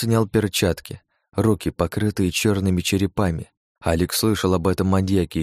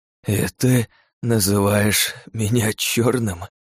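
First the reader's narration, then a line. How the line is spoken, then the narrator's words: Hoarse rasp. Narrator (Russian): прохрипел дома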